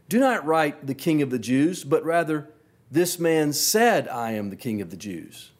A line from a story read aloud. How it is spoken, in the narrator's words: Pilate answered